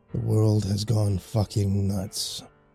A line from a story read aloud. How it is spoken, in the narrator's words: Dalton grumbled once again